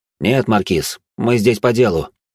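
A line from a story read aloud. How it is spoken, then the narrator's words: Cold tone. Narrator (Russian): холодным тоном произнес я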